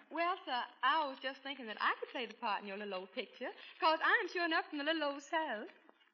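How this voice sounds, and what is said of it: Put-on Southern US accent. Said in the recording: “a girl with a southern accent”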